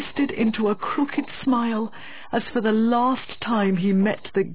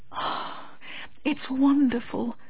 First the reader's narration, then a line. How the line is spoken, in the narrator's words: murmured Miss Medhurst